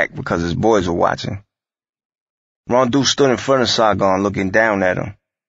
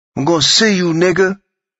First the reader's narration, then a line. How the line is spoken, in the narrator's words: Saigon screamed